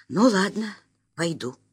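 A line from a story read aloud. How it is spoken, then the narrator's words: Decisive exhale. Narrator (Russian): решительно выдохнула старший кассир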